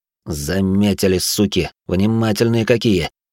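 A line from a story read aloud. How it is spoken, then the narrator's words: Quiet speech. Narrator (Russian): тихо проговорил динамит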